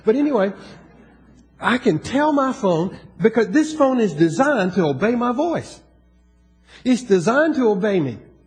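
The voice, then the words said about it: Southern American accent. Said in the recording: “I got that southern accent”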